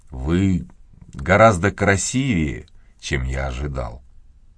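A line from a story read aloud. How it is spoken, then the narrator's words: Slow. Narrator (Russian): медленно произнес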